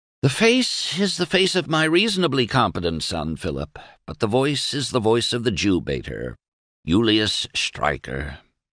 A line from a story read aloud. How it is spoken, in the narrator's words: sighed Doremus